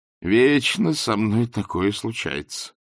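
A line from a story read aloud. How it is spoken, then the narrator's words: Groaned. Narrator (Russian): простонал Ринсвинд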